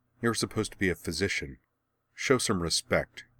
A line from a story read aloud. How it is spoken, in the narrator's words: in disgust, she ... muttering